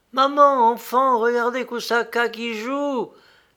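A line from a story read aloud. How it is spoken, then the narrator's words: Exclaimed. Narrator (French): s'écria Lélia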